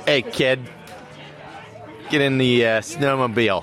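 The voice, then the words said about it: Put-on New England accent. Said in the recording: “your New England accent ... how did your New England accent get so good ... I have like a natural New England accent”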